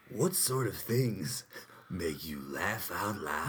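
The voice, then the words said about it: Creepy put-on voice. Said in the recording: “That voice is like harming. ... It hurts my chest. ... Your creepy voice.”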